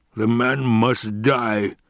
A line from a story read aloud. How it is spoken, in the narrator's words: the Baron rumbled